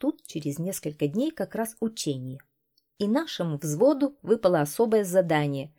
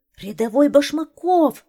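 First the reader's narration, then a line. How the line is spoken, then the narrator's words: Officer shouting. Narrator (Russian): закричал лейтенант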